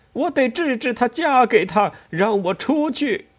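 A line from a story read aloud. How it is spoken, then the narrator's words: Hysterical shouting. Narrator (Chinese): 他歇斯底里的叫着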